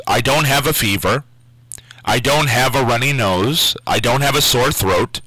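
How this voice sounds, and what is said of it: Hoarse, nearly lost voice. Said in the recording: “my voice has almost completely went out this week ... laryngitis ... my voice is totally shot”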